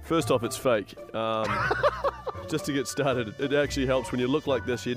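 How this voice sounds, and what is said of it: New Zealand accent. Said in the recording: “his New Zealand accent ... such a great accent”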